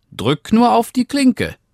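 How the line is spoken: Grandmother calling out. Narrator (German): rief die Großmutter

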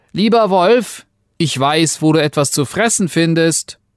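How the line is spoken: Calling from inside belly. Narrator (German): Er rief ihm aus seinem Bauche zu

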